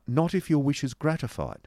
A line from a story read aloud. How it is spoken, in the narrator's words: replied Nicholas